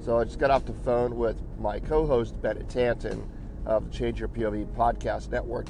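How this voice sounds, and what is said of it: Slightly hoarse voice. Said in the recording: “My voice is a little hoarse this morning. Still getting over a cold”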